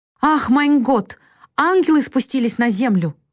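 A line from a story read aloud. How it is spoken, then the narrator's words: Joyful tearful exclamation. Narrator (Russian): воскликнула бедная женщина и заплакала от радости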